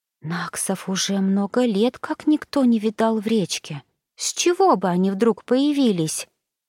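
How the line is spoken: Anxious whisper. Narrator (Russian): взволнованно прошептала Марьята на ухо Бригитте

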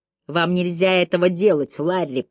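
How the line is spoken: Hoarse wheeze. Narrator (Russian): прохрипел я

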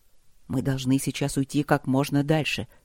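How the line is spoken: Whisper. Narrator (Russian): прошептал Трот

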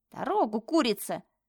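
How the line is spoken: Grumbling girl. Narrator (Russian): проворчала девушка

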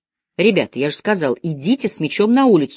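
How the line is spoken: Irritated repetition. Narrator (Russian): раздраженно повторил Деккер

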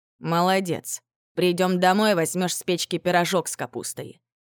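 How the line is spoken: Snorting. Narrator (Russian): хмыкнул Липуня

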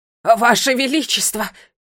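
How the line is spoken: Breathless exclamation. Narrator (Russian): воскликнул, затаив дыхание

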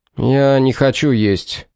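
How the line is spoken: Irritated reply. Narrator (Russian): раздраженно ответил Мэтью

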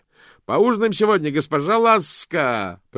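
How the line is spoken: Shouting. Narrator (Russian): прокричал он

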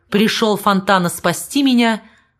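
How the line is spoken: Cold explanation. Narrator (Russian): холодно объяснился с генералом

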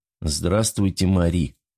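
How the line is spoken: Sad. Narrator (Russian): грустно сказал Денис Богданов, выглядевший так, словно по нему проехал грузовик

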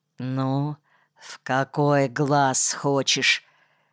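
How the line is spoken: Quiet through clenched teeth. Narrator (Russian): тихо сквозь зубы спросил

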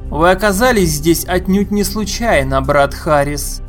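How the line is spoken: Loud proclamation. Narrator (Russian): громко возгласил он

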